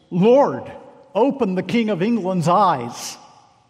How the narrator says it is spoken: he cried out from the stake with a loud voice

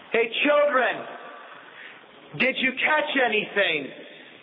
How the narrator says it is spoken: he yells

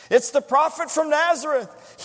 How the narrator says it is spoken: cried with tears in his eyes

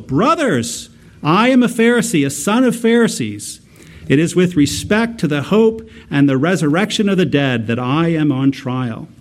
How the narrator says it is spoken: Paul he cried out in the council

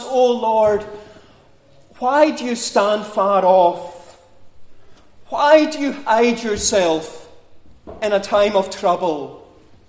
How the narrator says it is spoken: You sigh

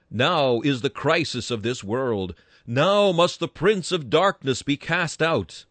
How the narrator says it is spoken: Christ himself exclaimed

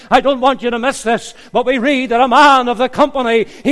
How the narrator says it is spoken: he cried out

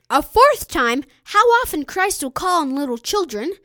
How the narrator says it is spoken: the voice cried

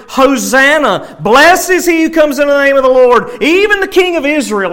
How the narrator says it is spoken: the same crowd just a few days prior at what we call Jesus' triumphal entry into Jerusalem had shouted

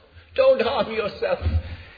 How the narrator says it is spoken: he cried to the Philippian jailer

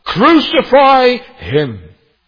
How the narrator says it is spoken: when they rejected him, and when they cried out

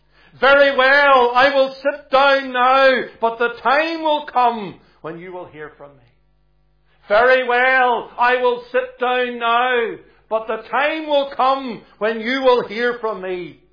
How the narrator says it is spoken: raised his voice and he said

